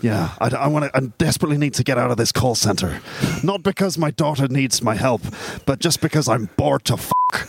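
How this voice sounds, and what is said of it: Refined Northern Irish accent impression. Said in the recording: “That wasn't bad. That's probably a better Liam Neeson accent than I can do. He's from Ballymena, but he has a very refined Ballymena accent.”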